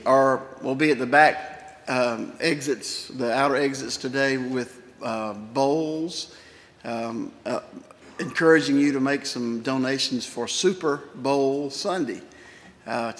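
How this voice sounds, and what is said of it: Hoarse voice. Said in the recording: “my hoarseness”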